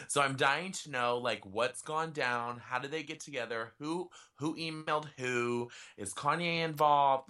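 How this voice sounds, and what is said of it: Breathless after rapid excited talking. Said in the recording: “Oh my god, I'm out of breath.”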